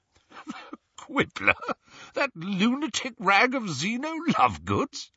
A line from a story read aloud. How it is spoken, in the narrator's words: he spluttered